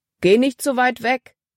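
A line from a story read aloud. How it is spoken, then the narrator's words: Calling out. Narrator (German): rief Paul ihr zu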